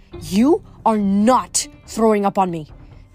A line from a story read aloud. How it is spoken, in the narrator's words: Doris growled